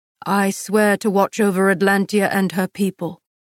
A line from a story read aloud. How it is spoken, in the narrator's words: answered, his voice thick